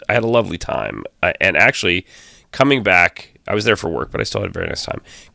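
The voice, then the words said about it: Hoarse voice. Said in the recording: “I was in Vegas. That's why I sound hoarse.”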